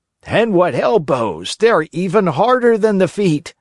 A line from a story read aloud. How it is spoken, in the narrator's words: shouted another one, who, because of some other trick, had received a blow in the stomach